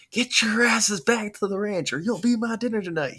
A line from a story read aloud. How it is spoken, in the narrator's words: he yelled manically